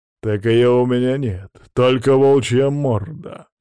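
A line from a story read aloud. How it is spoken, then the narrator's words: Growling. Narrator (Russian): рыкнул незнакомец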